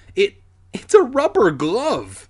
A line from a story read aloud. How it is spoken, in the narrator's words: Alex exclaimed